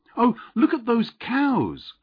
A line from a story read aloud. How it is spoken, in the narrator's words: cried the aunt